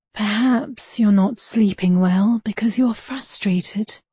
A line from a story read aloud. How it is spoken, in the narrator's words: she whispered